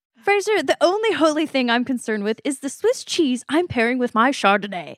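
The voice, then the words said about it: Reads lines in a character voice. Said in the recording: “forgive my Niles accent. I don't know if I have one.”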